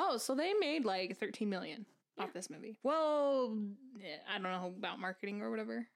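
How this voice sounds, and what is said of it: Usual voice. Nothing is said of it.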